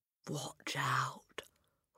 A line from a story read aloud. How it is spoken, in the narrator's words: Hortensia whispered